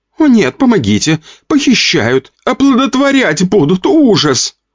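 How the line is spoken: Flat unemotional voice. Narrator (Russian): Не очень эмоциональным голосом говорила рыжая

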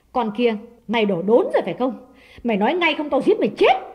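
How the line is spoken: Harsh demanding question. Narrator (Vietnamese): Đào ... gay gắt hỏi

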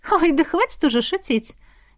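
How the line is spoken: Laughing loudly. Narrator (Russian): Тиана расхохоталась

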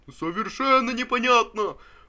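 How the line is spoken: Sudden exhausted shout from back. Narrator (Russian): Вдруг крикнул чей-то измученный голос из задних рядов

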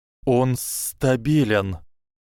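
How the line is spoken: Hissing. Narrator (Russian): Прошипел Гарри

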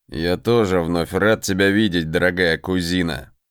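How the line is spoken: Polite, very calm reply. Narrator (Russian): Вежливо и да нельзя спокойно ответил Сагар

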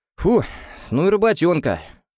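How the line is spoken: Exhaled. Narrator (Russian): выдохнул Митарай

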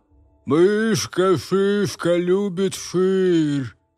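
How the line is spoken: Dead man's mumbling speech. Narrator (Russian): Мертвец пошамкал губами и сказал

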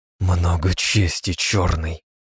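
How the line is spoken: Through gritted teeth. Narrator (Russian): процедила сквозь зубы Кара

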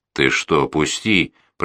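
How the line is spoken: Hoarse rasp. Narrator (Russian): прохрипел он

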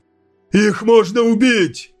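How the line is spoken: Sergeant's drowned-out shout. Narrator (Russian): крикнул сержант, хотя слышал себя только он

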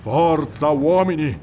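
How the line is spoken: Roar. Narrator (Italian): ruggì

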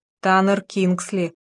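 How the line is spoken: Muffled reply. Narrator (Russian): глухо ответила Даяна

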